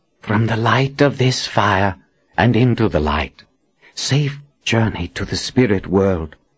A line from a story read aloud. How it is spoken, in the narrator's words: Nathan whispered